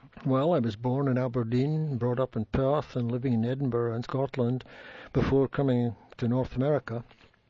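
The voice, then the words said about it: Slight accent. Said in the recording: “you do have a little bit of an accent”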